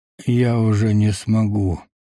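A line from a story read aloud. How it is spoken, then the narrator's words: Sad, smiling. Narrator (Russian): печально улыбнулся сидящий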